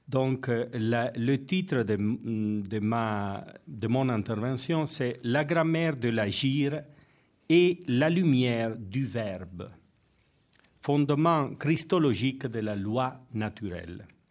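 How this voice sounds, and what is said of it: Non-native accent in French. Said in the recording (French): “je m'excuse pour mon accent qui n'est pas tellement bon”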